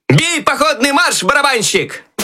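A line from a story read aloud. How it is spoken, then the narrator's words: Loud shout. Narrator (Russian): Громко крикнул Щелкунчик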